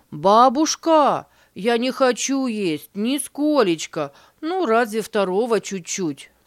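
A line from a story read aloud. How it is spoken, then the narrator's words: Child shouting. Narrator (Russian): закричал с порога Вася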